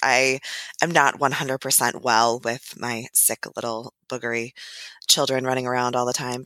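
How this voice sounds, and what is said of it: Hoarse, congested voice. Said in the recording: “I apologize for my voice. ... I've got this, cold coming on.”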